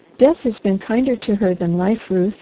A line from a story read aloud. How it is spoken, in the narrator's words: he said